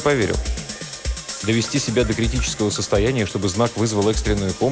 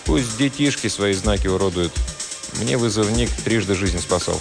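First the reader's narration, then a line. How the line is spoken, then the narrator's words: Calm reply. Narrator (Russian): Игорь спокойно ответил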